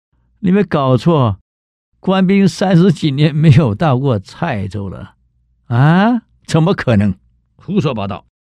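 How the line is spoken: Dismissive laugh. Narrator (Chinese): 吴元济笑一笑

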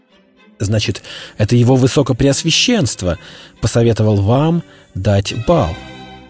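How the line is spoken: Plain question, queen. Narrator (Russian): спросила королева

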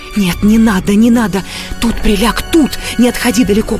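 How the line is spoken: Urgent whisper. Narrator (Russian): прошептала Катерина Львовна

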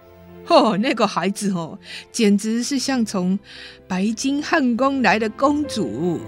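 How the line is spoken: Laughing. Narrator (Chinese): 厨师曾经笑说

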